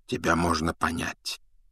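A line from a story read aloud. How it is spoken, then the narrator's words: Quiet. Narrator (Russian): тихо проговорил Дамблдор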